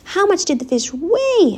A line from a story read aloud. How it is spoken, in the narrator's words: asked Wilbur, eagerly